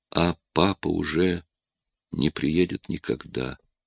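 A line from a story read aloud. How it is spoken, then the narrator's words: Quiet. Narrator (Russian): тихо произнесла Кэт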